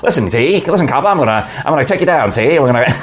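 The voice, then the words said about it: Fast 1940s Mid-Atlantic gangster accent. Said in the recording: “my 1940s accent, I'd talk fast in the Atlantic accent ... You do that so well.”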